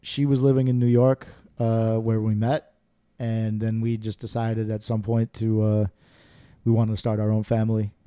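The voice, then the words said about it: New York accent. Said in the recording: “I see you don't have your accent, so. ... From Minnesota. ... more of like a New York accent.”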